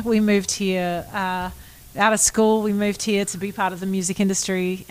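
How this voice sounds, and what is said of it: Australian accent. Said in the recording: “you can't get rid of an Australian accent. It just sticks.”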